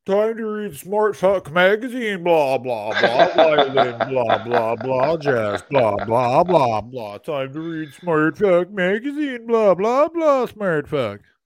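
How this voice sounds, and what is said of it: Mocking impression of another person. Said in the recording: “let me now do an impression of Chris Betts. This is my impression of Chris Betts.”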